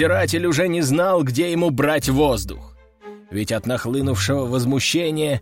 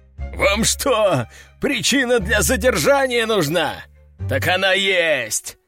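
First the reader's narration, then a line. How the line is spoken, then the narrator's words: Roaring. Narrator (Russian): взревел он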